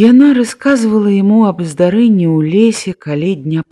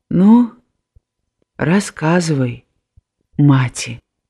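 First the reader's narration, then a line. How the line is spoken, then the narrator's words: Gentle. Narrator (Belarusian): бацька сказаў ёй ласкава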